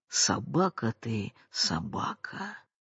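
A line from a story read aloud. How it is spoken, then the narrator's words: Muttering, sighing, wheezing. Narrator (Russian): сопя, вздыхая и бормоча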